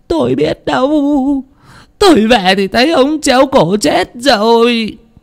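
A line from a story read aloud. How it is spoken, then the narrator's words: Tearful whimpering after crying. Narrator (Vietnamese): sau một hồi khóc lóc mới mếu máo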